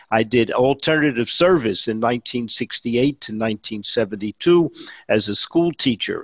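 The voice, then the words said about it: New York Bronx accent. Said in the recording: “his distinctive Bronx accent gives him away ... You can tell by my accent, I am a New Yorker, born and raised in the Bronx”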